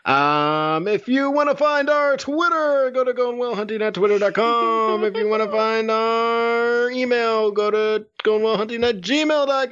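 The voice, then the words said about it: Announcer voice. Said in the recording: “I love this announcer voice.”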